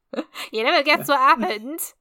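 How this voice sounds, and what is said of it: Put-on East End London accent. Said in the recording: “East End accent. I think it's pretty good, actually.”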